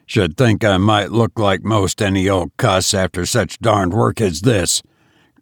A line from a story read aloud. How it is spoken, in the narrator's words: growled David